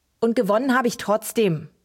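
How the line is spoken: Calling from another room. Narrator (German): rief er aus seinem Zimmer

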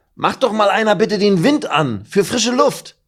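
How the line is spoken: Calling out. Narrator (German): ruft Meffo

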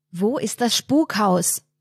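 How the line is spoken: Bellowing. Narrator (German): brüllt Anton

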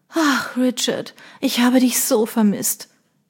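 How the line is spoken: Woman sighing deeply. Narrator (German): sagte die Frau in seinen Armen und stieß einen tiefen Seufzer aus

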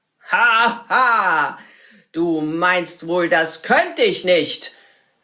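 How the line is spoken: Wizard calling out. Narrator (German): rief der Zauberer

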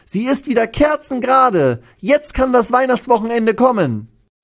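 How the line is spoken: Called out. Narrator (German): ruft dann einer von ihnen

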